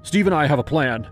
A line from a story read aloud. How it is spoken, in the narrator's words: Patrick blurted